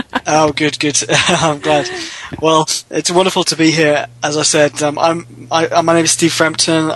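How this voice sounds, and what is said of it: Lovely accent, slightly congested voice. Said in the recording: “I have a cold, so please excuse my voice ... you can't tell with your lovely accent”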